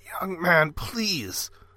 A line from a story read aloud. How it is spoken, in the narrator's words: the man croaked